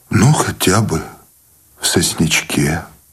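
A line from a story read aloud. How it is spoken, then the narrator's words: Trembling voice. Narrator (Russian): дрогнувшим голосом согласился Сущеня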